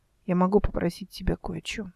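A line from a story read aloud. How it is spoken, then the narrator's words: Quiet. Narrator (Russian): сказала она тихо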